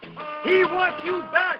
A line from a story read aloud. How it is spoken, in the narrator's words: he screams into the night air like a fireman going through a window that has no fire